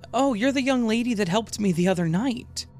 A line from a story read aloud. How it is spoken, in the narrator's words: she said cheerfully